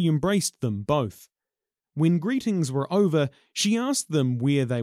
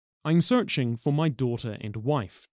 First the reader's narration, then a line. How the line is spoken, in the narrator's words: Tāwhaki said